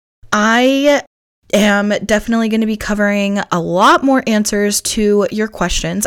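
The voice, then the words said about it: Strained, fading hoarse voice. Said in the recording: “you can hear I've been on meetings all day, so I'm losing my voice a little bit”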